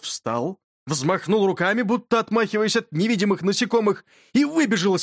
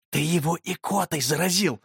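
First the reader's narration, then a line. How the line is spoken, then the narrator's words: Whisper. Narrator (Russian): шепнул я Юрке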